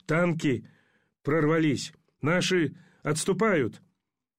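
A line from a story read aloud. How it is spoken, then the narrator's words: Delirious soldier's wheeze. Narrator (Russian): Солдат с серым птичьим личиком в беспамятстве, прохрипел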